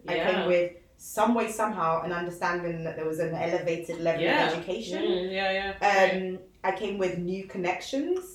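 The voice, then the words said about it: British accent. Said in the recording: “I was now British Nigerian... I came with my accent.”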